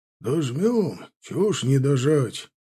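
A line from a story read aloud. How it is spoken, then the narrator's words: Grumbling. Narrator (Russian): проворчал стоящий в группе волонтеров Макарович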